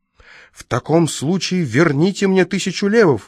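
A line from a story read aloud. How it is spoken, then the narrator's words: Exclamation. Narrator (Russian): воскликнул господин Приски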